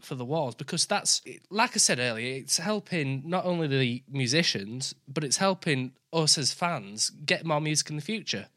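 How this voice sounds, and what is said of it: Yorkshire English accent. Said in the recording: “my accent because I'm from Yorkshire”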